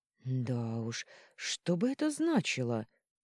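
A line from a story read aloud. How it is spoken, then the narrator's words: Worried drawl. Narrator (Russian): протянула императрица, искренне обеспокоенная семейной жизнью сестры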